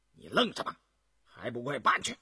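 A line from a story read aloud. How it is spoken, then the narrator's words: Stern, harsh. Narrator (Chinese): 雍正见高乌庸站着发呆，厉声说道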